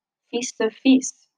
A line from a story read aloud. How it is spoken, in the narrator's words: murmured Mr